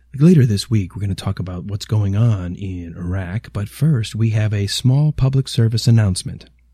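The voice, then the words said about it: Hushed public radio announcer voice. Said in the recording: “radio voice ... Shouldn't you be talking in hushed tones ... Is he doing NPR? ... the NPR voice”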